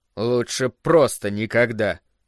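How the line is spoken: Muttered. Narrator (Russian): пробурчал он

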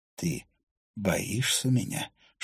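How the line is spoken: Whispered question. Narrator (Russian): шепотом поинтересовался Финна

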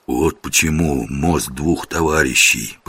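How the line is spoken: Whisper. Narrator (Russian): прошептал жихарь

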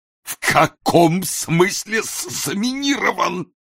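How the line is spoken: Hoarse wheeze. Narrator (Russian): просипел Ной Ноевич

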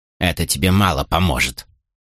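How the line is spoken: Grumbling. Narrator (Russian): проворчала Кетл

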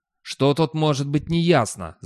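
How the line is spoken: Growl. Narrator (Russian): зарычал Достабль

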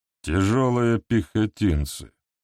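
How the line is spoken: Strange tone. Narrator (Russian): каким-то странным тоном ответил Бенгер

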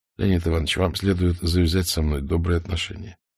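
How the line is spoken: Quiet, very friendly. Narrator (Russian): Исаев … тихо, очень дружелюбно сказал

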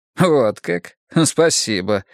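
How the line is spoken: Snorting grunt. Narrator (Russian): хмыкнул адвокат

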